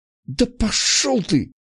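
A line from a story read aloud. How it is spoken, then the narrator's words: Embarrassed hiss. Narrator (Russian): Залившись краской, прошипела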